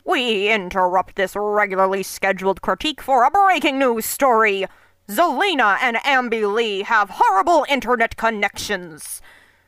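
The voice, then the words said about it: Mock news-anchor voice. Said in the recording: “that was my news voice”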